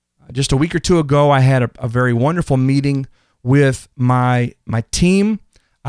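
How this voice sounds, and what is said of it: Excited, pumped-up energetic voice. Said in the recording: “You might can tell in my voice, I'm pumped. I'm excited.”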